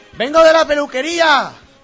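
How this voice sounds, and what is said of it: Shouting. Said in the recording (Spanish): “¿Y por qué gritas?”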